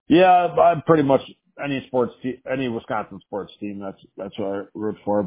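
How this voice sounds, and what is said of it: Wisconsin accent. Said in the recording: “that's the Wisconsin accent a little bit ... definitely not the most, the best accent you could have on the planet”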